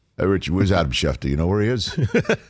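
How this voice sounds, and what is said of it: Imitates another person's voice. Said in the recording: “I love your impression of him.”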